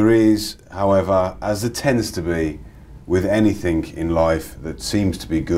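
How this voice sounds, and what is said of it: Usual voice. Nothing is said of it.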